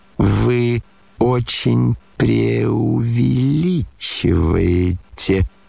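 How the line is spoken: Bored, faintly ashamed drawl. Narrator (Russian): протянул Иван Петрович с некоторой скукой и даже как будто чего-то совестись

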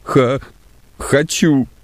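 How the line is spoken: Sobbing answer. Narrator (Russian): ответил Егорушка, всхлипывая

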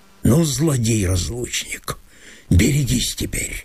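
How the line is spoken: Muttering. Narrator (Russian): Пробормотал он

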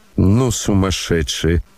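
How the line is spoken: Muttered. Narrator (Russian): пробормотала Лизавета Прокофьевна

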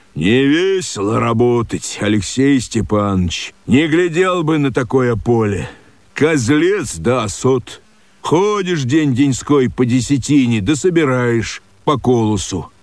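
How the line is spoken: Stern gruff voice. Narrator (Russian): Один из них, суровый с виду, грубым голосом сказал моему отцу

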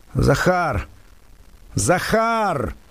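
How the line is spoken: Long repeated shouting. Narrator (Russian): долго кричал он

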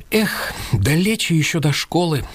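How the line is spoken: Sigh. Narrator (Russian): вздохнул Артем

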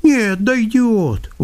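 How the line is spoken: Indifferent, lazy objection. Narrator (Russian): возразил он тем же равнодушно-ленивым голосом

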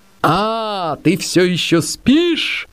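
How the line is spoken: Thunderous shout. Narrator (Russian): крикнула громовым голосом

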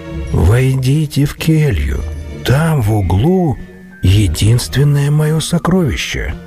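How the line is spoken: Calm. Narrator (Russian): спокойно обратился монах Нил к разбойникам

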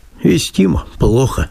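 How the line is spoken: Plain. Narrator (Russian): говорит

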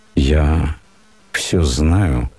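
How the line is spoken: Quiet and sad. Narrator (Russian): сказал ей тихим и печальным голосом

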